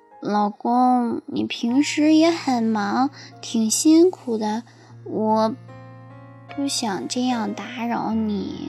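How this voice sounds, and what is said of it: Speaking softly, quietly. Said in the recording (Chinese): “小声说”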